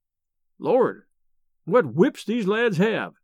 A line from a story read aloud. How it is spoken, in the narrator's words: exclaimed Merritt